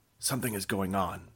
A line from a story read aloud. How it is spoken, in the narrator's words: I whisper